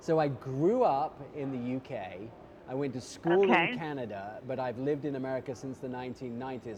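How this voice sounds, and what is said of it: British accent mixed with other influences. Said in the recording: “I haven't lost my accent, but I'm kind of a mishmash hybrid of everything”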